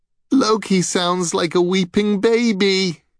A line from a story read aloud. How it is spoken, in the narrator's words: giggled Balder's brother Hod